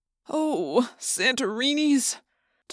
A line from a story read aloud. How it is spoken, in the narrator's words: Tom groaned